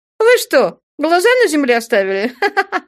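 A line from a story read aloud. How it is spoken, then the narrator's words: Laughing. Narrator (Russian): Рассмеялась Мерседес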